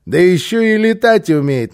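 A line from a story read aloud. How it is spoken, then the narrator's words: Mocking. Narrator (Russian): насмешливо подхватил босса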